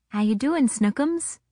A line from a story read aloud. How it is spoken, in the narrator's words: I murmured